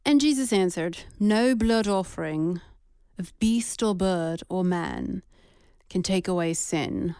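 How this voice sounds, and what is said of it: Put-on British accent. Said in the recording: “I'm reading this in British accent”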